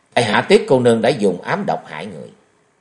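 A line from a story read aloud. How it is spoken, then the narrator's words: Angrier. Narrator (Vietnamese): Di Kế Quan lại thêm tức giận nói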